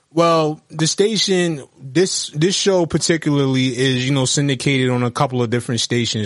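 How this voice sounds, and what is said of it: New York accent. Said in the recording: “You have more New York accent... You have a New York accent, not Atlanta.”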